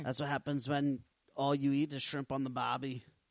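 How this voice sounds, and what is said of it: Bad put-on Australian accent. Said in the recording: “my Australian accent is getting worse and worse the more I try to talk in it”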